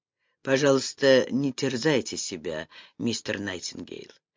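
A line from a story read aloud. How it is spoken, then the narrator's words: Soft. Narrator (Russian): мягко произнес Вексфорд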